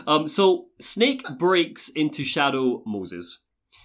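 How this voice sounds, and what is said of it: Usual voice. Nothing is said of it.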